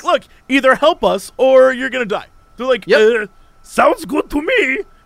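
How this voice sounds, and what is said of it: Comic German Nazi scientist voice. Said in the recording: “That's my Nazi scientist voice. ... Pretty good. ... Very good. ... That's a great character. The crazy Nazi scientist.”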